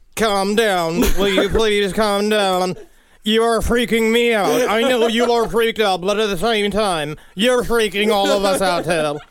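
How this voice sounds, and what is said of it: Stephen Hawking impression. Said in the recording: “it's a really good impression. ... Well, yeah, it's Stephen Hawking.”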